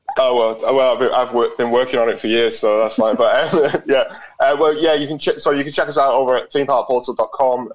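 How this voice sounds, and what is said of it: British accent. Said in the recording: “that sweet, sweet British accent”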